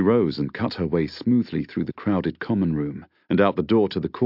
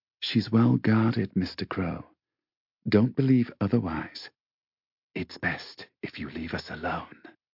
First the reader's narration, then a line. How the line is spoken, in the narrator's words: In a low, husky, sensuous voice, she said